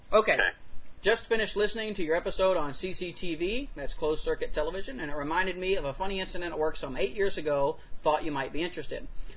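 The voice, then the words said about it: Very fast reading voice. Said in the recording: “I'm going to do my fast-forward voice.”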